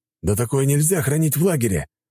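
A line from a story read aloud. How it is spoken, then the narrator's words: Exclaimed. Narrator (Russian): воскликнул тот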